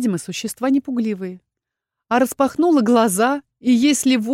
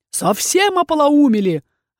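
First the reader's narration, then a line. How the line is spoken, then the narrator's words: Barked angrily. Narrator (Russian): рявкнул дракон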